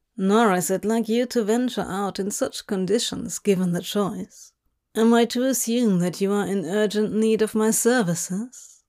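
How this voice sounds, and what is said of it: Low drawling voice. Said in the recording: “low drawl”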